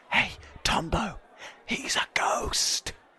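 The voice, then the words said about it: Loud stage whisper. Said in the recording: “loudly whisper”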